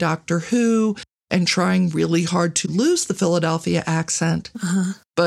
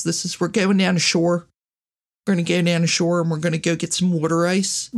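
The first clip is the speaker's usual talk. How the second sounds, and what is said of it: Demonstrated Philadelphia accent. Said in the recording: “a standard Philly accent kind of sounds like this ... It's the weirdest accent ever.”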